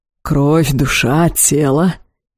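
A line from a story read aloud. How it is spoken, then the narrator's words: Growl. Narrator (Russian): прорычал темный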